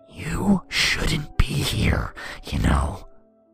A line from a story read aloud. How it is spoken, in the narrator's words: he growled